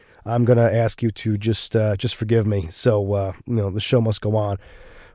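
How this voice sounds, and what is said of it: Gravelly, slightly rough voice. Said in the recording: “I wasn't feeling well this week, so my voice is a little bit extra gravelly ... if my my voice isn't quite on point tonight”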